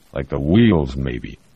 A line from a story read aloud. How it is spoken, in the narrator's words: Connors grumbled